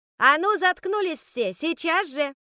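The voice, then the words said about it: Shouting at the top of her lungs. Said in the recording (Russian): “Я грохнула кулаком по парте и во всю глотку гаркнула.”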